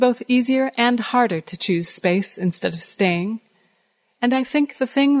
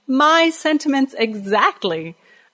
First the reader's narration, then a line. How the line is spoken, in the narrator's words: I laughed and laughed